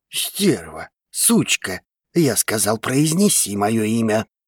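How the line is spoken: Man's angry hiss. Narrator (Russian): Зашипел мужчина

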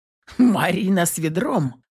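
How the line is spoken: Snorting laugh. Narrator (Russian): фыркнул от смеха муж

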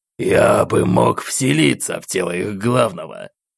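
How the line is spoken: Hoarse, curt demon voice. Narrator (Russian): хриплым голосом бросил материализовавшийся демон

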